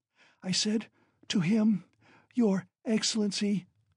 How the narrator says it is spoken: she ejaculated, gasping after each word

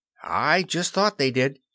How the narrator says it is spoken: Curly broke in excitedly

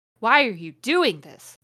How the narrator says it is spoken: Lupin said angrily

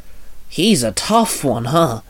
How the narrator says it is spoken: Kamori muttered

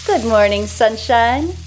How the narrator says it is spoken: says cheerfully

